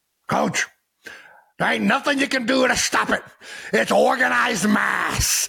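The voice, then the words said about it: Put-on Scottish accent. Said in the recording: “let me see if I can do my best Scottish impression”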